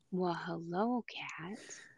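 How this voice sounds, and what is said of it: Sultry, sexy voice. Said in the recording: “You have your sexy voice on today.”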